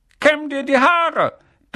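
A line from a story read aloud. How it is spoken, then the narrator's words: Barked. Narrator (German): bellte er als Morgengruß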